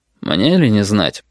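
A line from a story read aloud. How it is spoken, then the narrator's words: Dry reply. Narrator (Russian): сухо отозвался пассажир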